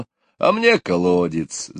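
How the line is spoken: Father laughing. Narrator (Russian): засмеялся папа

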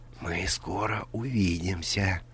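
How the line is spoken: Whispered. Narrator (Russian): прошептал

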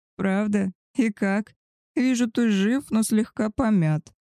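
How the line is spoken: Laughing. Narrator (Russian): засмеялся племянник

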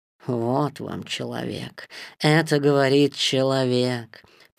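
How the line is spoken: Grumbling under breath. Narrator (Russian): проворчала Багира себе в усы

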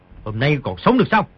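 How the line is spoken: Shout. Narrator (Vietnamese): quát

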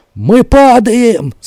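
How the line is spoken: Slurred barbaric rapid shout. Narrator (Russian): заорал невнятной варварской скороговоркой один из братьев крученых

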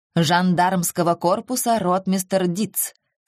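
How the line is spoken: Icy tone. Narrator (Russian): сказал гость ледяным тоном

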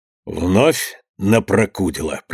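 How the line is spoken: Quiet. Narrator (Russian): проговорил Иван Максимович негромко

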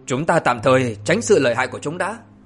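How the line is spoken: Low sharp command. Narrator (Vietnamese): Thủy Tiên Phi Tử quát nhỏ

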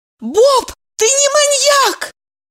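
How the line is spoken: Fervent exclamation. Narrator (Russian): с жаром воскликнула Евдокия

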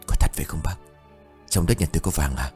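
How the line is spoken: Choked whisper. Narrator (Vietnamese): Ông Khảm thì thầm câu nói ban nãy trong hơi thở nghẹn ứ

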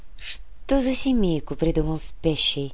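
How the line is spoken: Sad, smiling. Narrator (Russian): грустно улыбнулась Яна

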